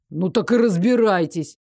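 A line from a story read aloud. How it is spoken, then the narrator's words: Angry advice. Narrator (Russian): зло посоветовал ему Дарык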